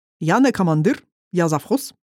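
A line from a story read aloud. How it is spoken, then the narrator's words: Heavily accented correction. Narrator (Russian): с сильным акцентом поправил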